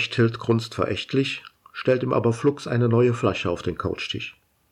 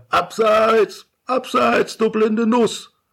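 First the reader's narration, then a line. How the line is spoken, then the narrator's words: Yelling, spitting crumbs. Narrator (German): Krümelspuckend schreit er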